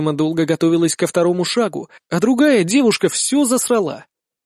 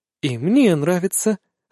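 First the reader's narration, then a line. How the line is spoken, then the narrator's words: Sweet succubus whisper. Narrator (Russian): сладостный шепот от суккубки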